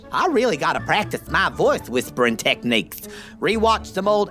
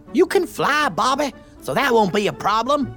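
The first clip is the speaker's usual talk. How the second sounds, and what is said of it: Loud stage whisper. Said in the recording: “You overheard me loudly whisper that”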